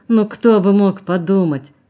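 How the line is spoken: Grumbled. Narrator (Russian): проворчал он

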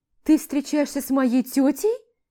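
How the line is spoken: Squealed. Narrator (Russian): взвизгиваю я

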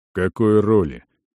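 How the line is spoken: Gloomy question. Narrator (Russian): мрачно спросил Арон

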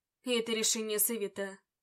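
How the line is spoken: Cold reply. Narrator (Russian): Холодно ответил

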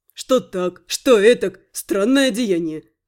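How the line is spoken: Thief's smirking snort. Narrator (Russian): хмыкнул вор

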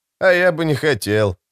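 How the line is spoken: Smirking grunt. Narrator (Russian): хмыкнул Алекс

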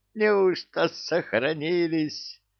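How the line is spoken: Laughed joyfully. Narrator (Russian): радостно засмеялся он

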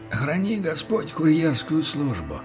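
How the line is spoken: Hoarse, muffled voice. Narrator (Russian): Голос помощника был охрипшим и каким-то мутным

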